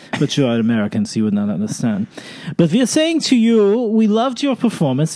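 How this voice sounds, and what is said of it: Put-on French accent. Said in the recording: “sounding French”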